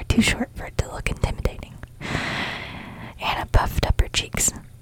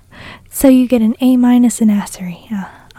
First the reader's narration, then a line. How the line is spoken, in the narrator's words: Anna laughed